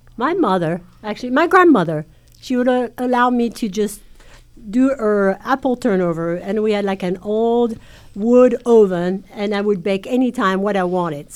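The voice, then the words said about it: French accent. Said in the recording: “there's a French accent”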